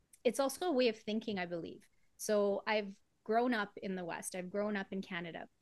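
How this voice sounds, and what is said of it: Canadian or American accent. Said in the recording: “you have a Canadian / American accent”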